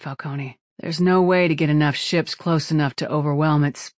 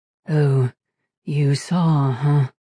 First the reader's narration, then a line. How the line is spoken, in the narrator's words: He said in a dull tone